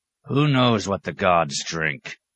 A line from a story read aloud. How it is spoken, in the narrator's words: rumbled Mad Bear